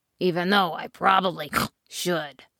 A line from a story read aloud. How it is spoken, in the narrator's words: snorted the pig